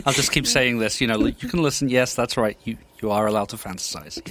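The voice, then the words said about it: Speaks with a noticeable accent. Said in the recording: “We brought him in for the accent because, you know, accents.”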